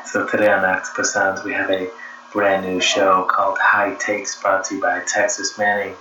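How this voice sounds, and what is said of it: Whispering. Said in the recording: “people are sleeping, so I'm whispering.”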